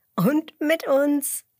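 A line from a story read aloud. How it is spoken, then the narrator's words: Giggling. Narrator (German): kichert Emmerla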